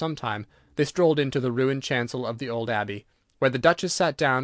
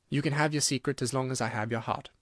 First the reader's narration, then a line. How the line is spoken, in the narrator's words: he murmured